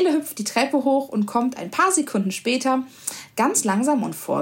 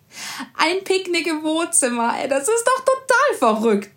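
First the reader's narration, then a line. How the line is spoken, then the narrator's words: Laughing. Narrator (German): lacht Theo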